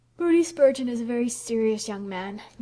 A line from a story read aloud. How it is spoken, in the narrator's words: yawned Priscilla